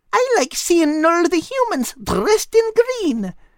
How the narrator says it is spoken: Kate added happily

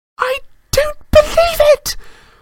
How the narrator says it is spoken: Hermione screamed

